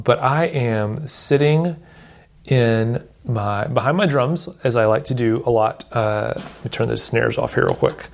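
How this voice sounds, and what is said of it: Slightly lower, congested voice. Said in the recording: “I have had the old allergy thing going on for the past couple of days, so I think maybe my voice sounds a little lower pitched than usual”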